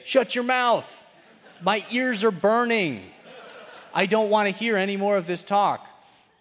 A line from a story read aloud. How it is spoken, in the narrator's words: they will yell out just as well and say